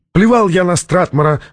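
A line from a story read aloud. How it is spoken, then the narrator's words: Loud echoing shout. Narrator (Russian): закричал Чатрукьян, и его слова громким эхом разнеслись по шифровалке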